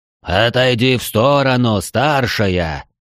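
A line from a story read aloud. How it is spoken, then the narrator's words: Drawn-out demon hiss. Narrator (Russian): Протяжно прошипел ближайший к нам демон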